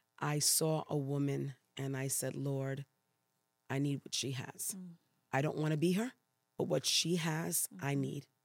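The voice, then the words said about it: Puerto Rican New York accent. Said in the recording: “a little bit of an accent I'm picking up there ... I am Puerto Rican ... raised in New York City ... So that's where the accent is coming from.”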